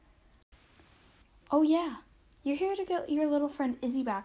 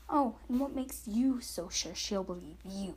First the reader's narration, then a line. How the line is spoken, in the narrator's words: Monica hissed back